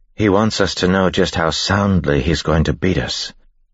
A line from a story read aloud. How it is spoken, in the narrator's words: Vin said